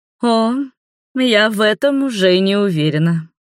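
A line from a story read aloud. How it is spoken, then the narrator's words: Drawling. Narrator (Russian): протянула Нева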